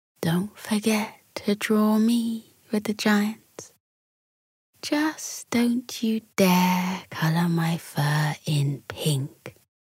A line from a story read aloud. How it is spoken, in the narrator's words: Just as Bella was on the brink of sleep, she purred to Talia